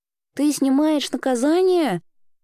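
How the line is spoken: Girl's uncertain question. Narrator (Russian): неуверенно уточнила девочка

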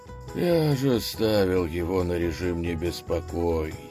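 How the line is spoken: Weary curt remark. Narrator (Russian): устало бросил Василевс

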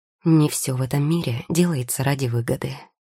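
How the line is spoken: Calm. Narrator (Russian): спокойно ответил Теодор

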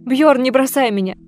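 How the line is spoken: Sobbing. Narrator (Russian): зарыдала Ольга

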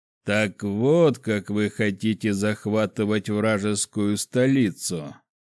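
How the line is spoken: Short laugh. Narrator (Russian): хохотнул он

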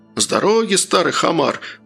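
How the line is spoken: Leader's growl. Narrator (Russian): прорычал предводитель колонны

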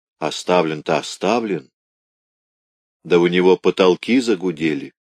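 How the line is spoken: Plain, workers. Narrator (Russian): сказали рабочие

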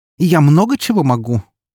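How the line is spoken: Snort. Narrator (Russian): тут же фыркнула она

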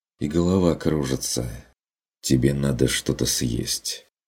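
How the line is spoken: Sighed. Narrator (Russian): вздохнул Стрик

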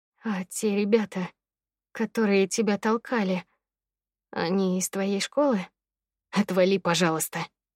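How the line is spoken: Through gritted teeth. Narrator (Russian): Процедил сквозь зубы Алик

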